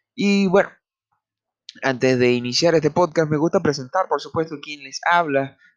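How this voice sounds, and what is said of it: Venezuelan Spanish accent. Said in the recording (Spanish): “este acento es un poco, wow, diferente ... Venezolana”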